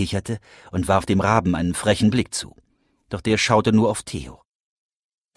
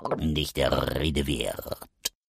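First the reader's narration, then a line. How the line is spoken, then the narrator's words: Raven croaking, rolled R. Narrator (German): krächzte der Rabe mit rollendem R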